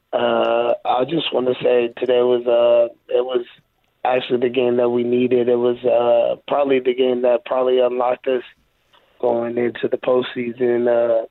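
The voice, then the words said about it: Hoarse, nearly lost voice. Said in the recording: “My voice is kind of gone”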